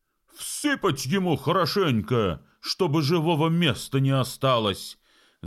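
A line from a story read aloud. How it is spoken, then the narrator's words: Several men shouting. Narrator (Russian): закричали несколько человек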